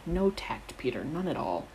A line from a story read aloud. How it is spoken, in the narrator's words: Sirius tutted quietly